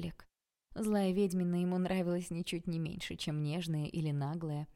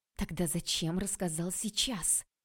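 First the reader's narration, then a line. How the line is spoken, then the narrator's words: Snake-like hiss. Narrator (Russian): прошипела она, словно змея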